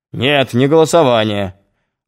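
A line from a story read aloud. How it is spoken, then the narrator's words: Snapped. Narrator (Russian): огрызнулся Нестеров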